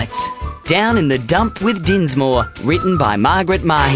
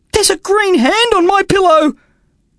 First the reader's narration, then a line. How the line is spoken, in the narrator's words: Dinsmore cried